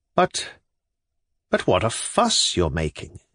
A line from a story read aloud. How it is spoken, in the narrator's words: he said gently